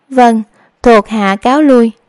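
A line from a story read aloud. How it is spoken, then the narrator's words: Restrained, suppressing trembling. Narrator (Vietnamese): Điệp Y ngăn không cho trái tim run rẩy, nói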